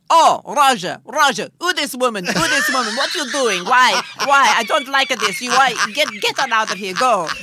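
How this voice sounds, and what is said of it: Put-on Italian accent, done well. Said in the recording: “you do a very good Italian accent... Very good just now.”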